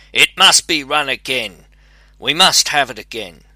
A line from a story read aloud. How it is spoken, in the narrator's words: The hare, however, quite beside himself with anger, cried